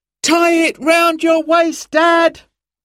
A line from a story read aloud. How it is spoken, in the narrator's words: shouted Simon